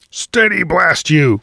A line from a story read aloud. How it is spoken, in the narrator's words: thundered Captain Alden